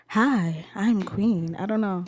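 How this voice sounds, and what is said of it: Put-on sexy, babyish voice. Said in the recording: “I think I sound like a baby ... how I feel about my voice when I do sexy voice”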